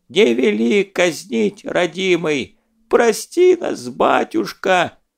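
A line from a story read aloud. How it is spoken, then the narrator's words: Old man whining. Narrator (Russian): скулил какой-то старичок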